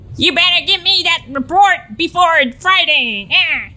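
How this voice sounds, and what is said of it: Old-time gangster voice. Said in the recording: “So almost like Bugsy Malone, like the traditional gangster.”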